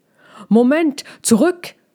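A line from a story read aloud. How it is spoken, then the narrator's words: Father's sudden shout. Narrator (German): schrie Balbis Vater da plötzlich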